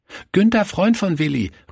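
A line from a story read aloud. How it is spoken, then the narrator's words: Called out. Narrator (German): rief er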